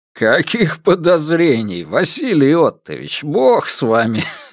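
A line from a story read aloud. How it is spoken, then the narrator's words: Chuckling. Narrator (Russian): хохотнул Сидоров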